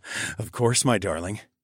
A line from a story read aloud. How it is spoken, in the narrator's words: chuckled